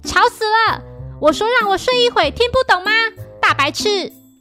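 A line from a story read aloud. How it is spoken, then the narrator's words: Angry, groggy shout. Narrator (Chinese): 这时平次醒来，并对荷叶大喊着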